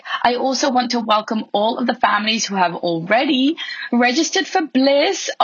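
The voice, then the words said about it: Hoarse voice. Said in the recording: “I have had a very sore throat for the last few weeks ... so that I could sound a little bit less hoarse, but it's still there.”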